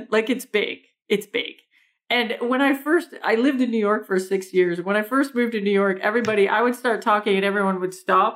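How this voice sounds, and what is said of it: Strong Canadian accent. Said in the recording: “we do sound a lot like people from Minnesota. I have this big Canadian accent.”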